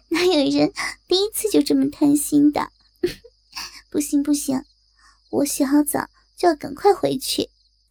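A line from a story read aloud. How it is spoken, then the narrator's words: Laughing loudly. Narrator (Chinese): 葛海伦大笑着说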